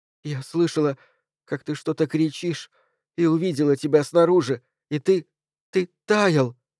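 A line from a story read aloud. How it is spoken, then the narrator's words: Sobbing. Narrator (Russian): всхлипнула Джейн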